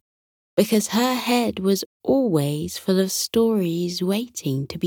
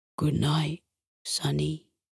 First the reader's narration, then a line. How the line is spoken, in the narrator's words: Hector whispered, his eyes drooping